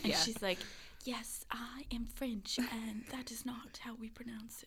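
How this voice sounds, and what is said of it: Put-on British accent. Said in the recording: “You said that with a British accent.”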